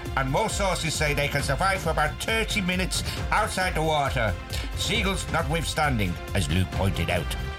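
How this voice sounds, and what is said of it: Put-on Irish accent. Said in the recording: “hence my racist Irish accent again”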